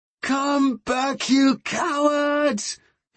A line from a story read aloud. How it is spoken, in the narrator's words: He screamed